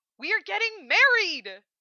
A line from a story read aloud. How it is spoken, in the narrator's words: She shrieks